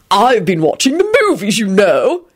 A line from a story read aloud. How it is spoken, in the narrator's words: he said triumphantly